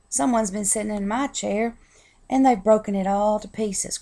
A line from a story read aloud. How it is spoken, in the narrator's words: cried Baby Bear